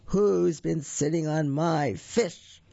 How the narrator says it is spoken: they heard someone say in a great big voice

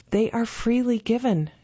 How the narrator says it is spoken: she said softly

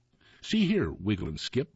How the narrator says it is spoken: says

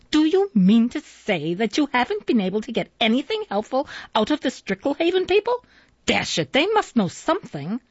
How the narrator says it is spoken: He said irritably

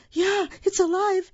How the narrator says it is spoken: The lady screamed

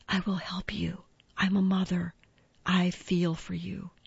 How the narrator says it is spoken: whispered

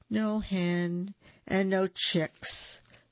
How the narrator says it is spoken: the gallito sighed

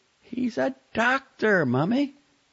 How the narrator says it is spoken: Charlotte exclaimed, incredulous

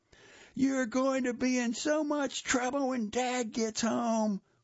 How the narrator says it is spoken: we shouted

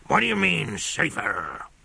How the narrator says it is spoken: roared Colonel Proctor

